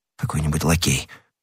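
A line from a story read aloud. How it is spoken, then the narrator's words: Mutter. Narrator (Russian): пробормотал Д'Артаньян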